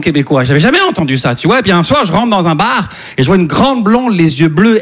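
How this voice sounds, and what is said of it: Slight Québécois French accent. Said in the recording (French): “ça se peut que vous entendiez un petit accent québécois”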